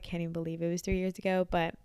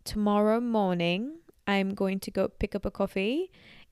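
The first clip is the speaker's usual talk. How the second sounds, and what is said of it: Put-on British accent. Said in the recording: “I was able to imitate the British accent ... I was getting really good at it and could honestly trick people ... it's probably really bad ... let me try and say something in a British accent.”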